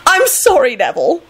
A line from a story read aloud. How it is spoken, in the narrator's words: Elizabeth squealed happily